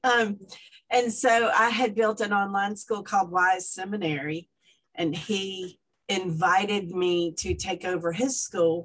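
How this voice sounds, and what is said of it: Atlanta accent. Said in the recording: “I'm from Atlanta. You can tell by the accent. I'm not from here.”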